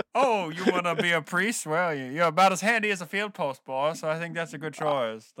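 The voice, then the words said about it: 1920s Southern gentleman accent. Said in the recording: “do the next pod in a 1920 Southern gentleman accent”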